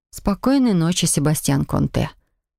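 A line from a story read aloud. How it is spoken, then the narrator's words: Quiet reply. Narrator (Russian): также негромко ответила я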